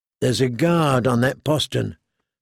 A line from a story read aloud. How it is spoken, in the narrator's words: said Gendry quietly